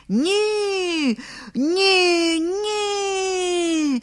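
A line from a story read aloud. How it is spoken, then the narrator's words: Crowd shouting from all sides. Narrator (Ukrainian): закричали гості з усіх боків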